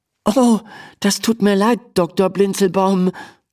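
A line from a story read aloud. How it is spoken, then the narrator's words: Stammering. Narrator (German): stammelt Emma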